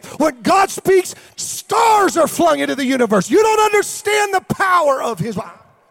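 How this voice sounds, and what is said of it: Yelling loudly. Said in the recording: “I'm yelling.”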